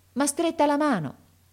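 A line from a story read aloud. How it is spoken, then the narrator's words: Exclaiming. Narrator (Italian): esclamò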